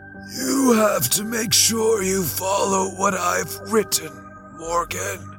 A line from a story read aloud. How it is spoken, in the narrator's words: he wheezed